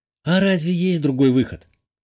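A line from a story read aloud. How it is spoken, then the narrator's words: Sad sigh. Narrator (Russian): печально вздохнула брюнеточка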